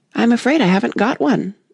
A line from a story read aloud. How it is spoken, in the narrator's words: Alice said in a frightened tone